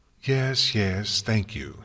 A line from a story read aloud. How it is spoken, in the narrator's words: Celestia sighed